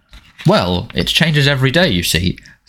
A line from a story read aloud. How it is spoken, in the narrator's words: said Harry